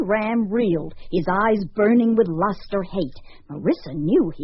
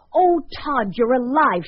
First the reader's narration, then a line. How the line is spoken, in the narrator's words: she cried